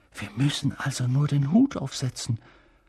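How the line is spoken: Whispered. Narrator (German): flüsterte Ron Harry zu

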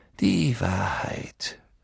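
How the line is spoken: Sigh. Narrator (German): Dumbledore seufzte

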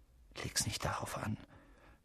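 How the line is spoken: Whispering. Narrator (German): flüsterte

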